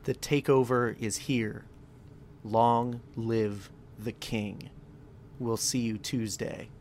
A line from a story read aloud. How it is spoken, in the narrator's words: EC3 says softly